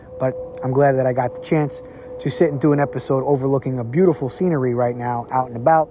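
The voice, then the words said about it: Hoarse, unwell-sounding voice. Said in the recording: “trying to horse a voice and record last week. And if you can hear it in my voice this week, I'm still not 100%”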